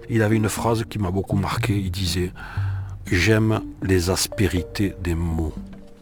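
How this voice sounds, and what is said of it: Toulouse southern French accent. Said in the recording (French): “j'ai un bon accent de Toulouse que j'ai tenu absolument à assumer et à garder. Oui, oui, j'ai l'accent de Toulouse.”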